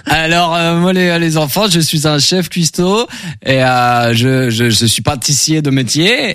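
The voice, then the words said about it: Slight regional French accent. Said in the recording (French): “ce petit accent, vous venez du sud, c'est ça?”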